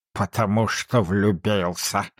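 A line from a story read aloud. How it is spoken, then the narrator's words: Grumbling. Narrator (Russian): проворчал Скрудж таким тоном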